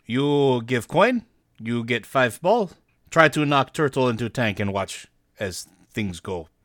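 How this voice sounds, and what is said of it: Heavily accented character voice. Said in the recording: “In very heavily accented common ... it's definitely Infernal.”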